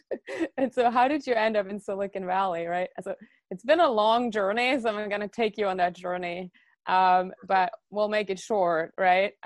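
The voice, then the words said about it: German accent. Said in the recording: “you have some accent, and yeah, it's a German accent.”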